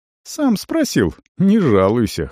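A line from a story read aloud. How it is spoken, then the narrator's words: Dry snort. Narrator (Russian): хмыкнул прежний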